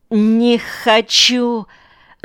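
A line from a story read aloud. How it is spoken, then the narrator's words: Quavering voice. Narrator (Russian): отвечает она дребезжащим голосом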